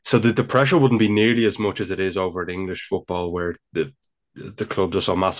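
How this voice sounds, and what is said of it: Dublin Irish accent. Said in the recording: “my Dublin accent.”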